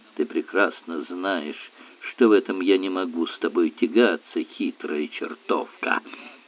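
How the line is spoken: Muttering to herself. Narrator (Russian): пробормотала себе под нос мисс Темпл

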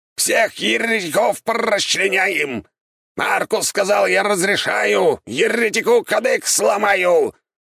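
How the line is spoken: Parrot's shrieking yell. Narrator (Russian): завопил попуг

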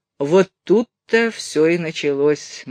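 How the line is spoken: Gloomy male voice. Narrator (Russian): мрачно сказал он

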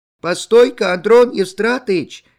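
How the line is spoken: Breathless shout. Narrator (Russian): кричала она задыхавшимся голосом

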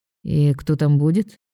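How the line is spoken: Lazy question. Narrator (Russian): лениво спрашивает Ник

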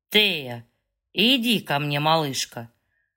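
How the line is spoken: Vibrating husky male voice. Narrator (Russian): он с вибрирующей, пробирающей хрипотцой произносит

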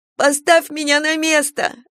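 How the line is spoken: Sobbing. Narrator (Russian): рыдала она

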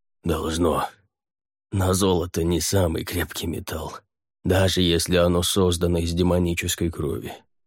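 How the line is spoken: Hoarse rasp. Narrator (Russian): прохрипел Халахель

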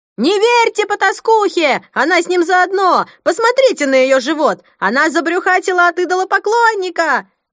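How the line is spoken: Shrill echoing female voice. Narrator (Russian): Визгливый женский голос разнесся под сводами зала, отозвавшись многократным эхом

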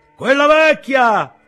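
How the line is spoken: Another woman shouting. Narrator (Italian): gridò un'altra

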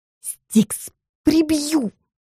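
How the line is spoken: Indignant hiss. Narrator (Russian): прошипела возмущенная я

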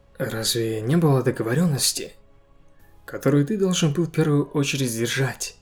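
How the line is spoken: Calm. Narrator (Russian): Джинву спокойно сказал статуе

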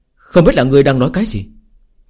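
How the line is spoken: Cold, displeased. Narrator (Vietnamese): trong nội tâm cũng có chút không vui, lạnh lùng nói

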